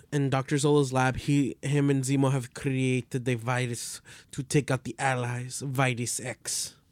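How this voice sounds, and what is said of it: Hard-to-understand put-on accent. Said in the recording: “can't understand ... accents... My accents are perfect”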